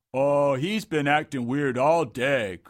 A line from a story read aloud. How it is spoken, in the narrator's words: grunted Dungo